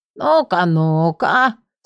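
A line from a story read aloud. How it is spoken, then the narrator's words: Enthusiastic creaky voice. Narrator (Russian): С непонятным энтузиазмом проскрипел он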